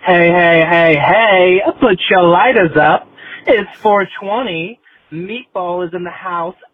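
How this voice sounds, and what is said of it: New York accent. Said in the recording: “As you can tell from my accent, I am from the East Village, NYC”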